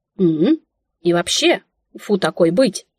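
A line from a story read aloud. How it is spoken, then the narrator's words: Grumbled. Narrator (Russian): пробурчала я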